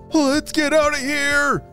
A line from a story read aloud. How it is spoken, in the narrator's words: Tommy called out